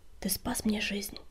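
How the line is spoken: Whisper. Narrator (Russian): прошептал он

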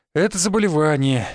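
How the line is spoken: Sighed. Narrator (Russian): вздохнул я

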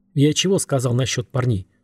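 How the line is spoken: Growling. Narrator (Russian): рычал он

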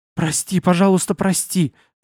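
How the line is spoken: Fearful mumbling. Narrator (Russian): забормотал, ожидая испепеляющей вспышки

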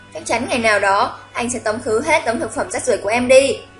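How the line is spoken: Annoyed. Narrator (Vietnamese): Hạ Dương bực bội

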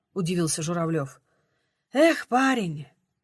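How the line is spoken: Sighing. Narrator (Russian): вздохнула Тамара

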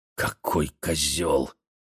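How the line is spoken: Whisper. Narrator (Russian): шептала мне Гася

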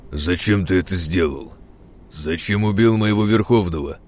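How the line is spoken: Steely deep demonic voice. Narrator (Russian): Со сталью в голосе пробасил архидемон

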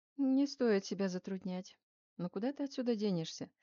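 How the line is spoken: Soft, gentle, chilling. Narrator (Russian): Новицкий говорил мягко, даже ласково, но от этого голоса можно было оцепенеть

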